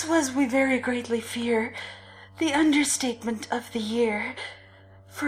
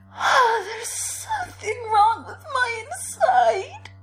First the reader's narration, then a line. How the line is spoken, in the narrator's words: young Goldie cried